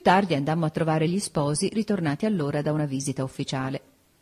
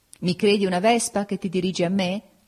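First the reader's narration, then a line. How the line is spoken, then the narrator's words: Laughing. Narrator (Italian): gli dissi ridendo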